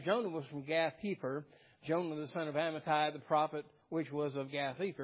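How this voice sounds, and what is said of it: Usual voice. Nothing is said of it.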